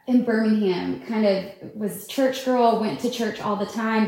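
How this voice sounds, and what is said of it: Regional accent. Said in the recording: “I think my accent is coming out the more you talk.”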